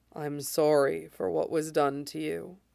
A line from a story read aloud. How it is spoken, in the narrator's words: murmurs